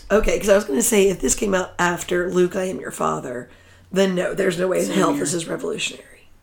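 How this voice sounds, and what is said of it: Hoarse, fading voice. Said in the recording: “my voice is starting to go ... You're hearing it happen. The allergies are making my voice leave.”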